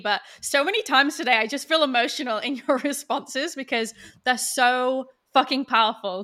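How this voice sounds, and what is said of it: Voice of someone with a cold. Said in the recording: “that I have a cold”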